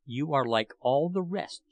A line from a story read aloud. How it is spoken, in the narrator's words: said